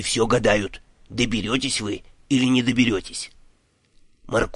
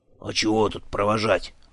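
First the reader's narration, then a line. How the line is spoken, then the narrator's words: Grumbling. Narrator (Russian): проворчал Дримарондо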